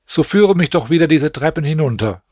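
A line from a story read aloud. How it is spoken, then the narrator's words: Calling out. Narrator (German): rief mein Bruder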